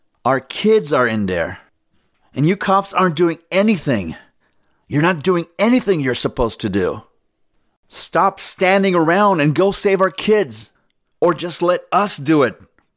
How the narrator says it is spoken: pleaded

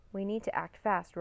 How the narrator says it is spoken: Rory cried

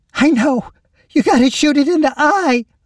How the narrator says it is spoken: Lacie cried out

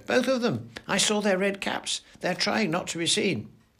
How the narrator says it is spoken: squeaked

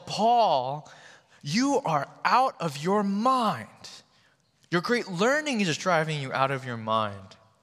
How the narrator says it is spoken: with a loud voice, he yelled

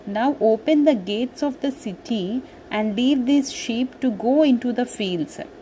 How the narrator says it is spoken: said Sita

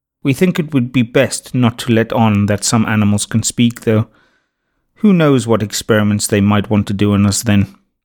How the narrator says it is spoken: said Nuna gravely

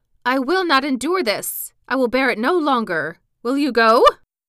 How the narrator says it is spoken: Then she fell into a rage, and her hair flew wildly about her head, and she cried

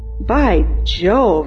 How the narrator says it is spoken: exclaimed Mr

